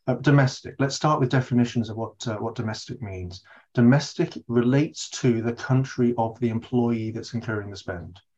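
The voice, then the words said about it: British accent. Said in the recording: “as you can probably all tell from my accent, I'm based here in the UK”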